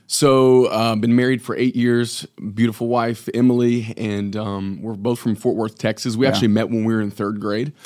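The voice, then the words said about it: Slight Texas twang. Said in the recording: “Texas accent ... You can pick up a little bit of twang in my voice ... Still haven't dropped it for the Michigan accent”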